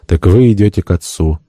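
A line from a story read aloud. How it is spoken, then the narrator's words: Sad. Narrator (Russian): Гомо грустно произнес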